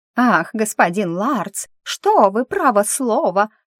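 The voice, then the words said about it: Mocking mimicry of the narrator. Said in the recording (Russian): “передразнил меня”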